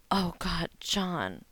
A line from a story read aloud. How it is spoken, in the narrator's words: moaned, spurting cum over his hand